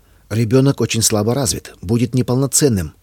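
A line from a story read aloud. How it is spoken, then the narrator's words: Metallic tone. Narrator (Russian): металлическим тоном произнесла она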